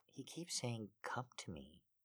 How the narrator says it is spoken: I whispered to him

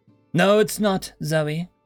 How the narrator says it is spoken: Quirrell said

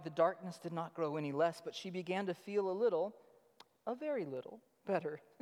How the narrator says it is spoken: whispers

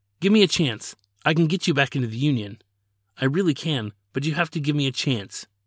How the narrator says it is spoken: pleaded

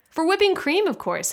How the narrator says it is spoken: said Mr

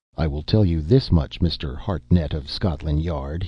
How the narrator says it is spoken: he said bitterly

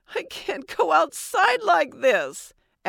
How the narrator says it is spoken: Allie sobbed

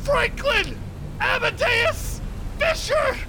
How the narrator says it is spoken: I'm just gonna scream

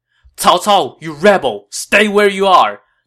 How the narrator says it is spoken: Dong Cheng shouted

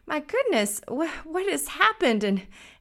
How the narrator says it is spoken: the younger brother gasped for breath

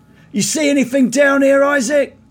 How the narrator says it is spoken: shouts out

